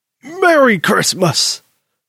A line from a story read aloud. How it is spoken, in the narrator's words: Granddaddy hollered out from the kitchen